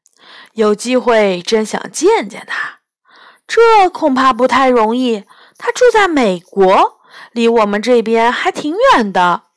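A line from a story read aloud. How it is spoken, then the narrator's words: Wistful sigh. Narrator (Chinese): 雕蛇感叹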